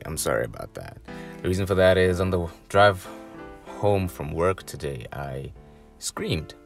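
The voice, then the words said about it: Scratchy, hoarse voice. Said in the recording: “my voice is a little scratchy today”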